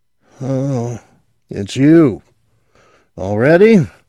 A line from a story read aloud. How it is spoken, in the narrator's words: He yawned again